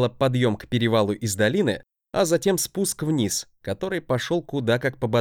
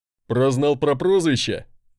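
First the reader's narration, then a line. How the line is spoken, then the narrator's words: Chuckling. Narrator (Russian): хохотнул мой носильщик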